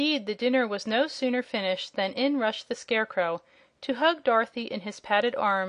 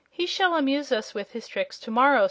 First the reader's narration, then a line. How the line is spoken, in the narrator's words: said the princess